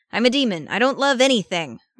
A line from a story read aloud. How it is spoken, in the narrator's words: Arcadius snapped